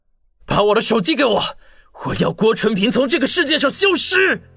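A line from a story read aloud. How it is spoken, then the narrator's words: Loud, deliberate. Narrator (Chinese): 王宇 大声说道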